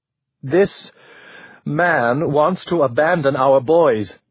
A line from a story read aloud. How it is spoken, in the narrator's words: Marie said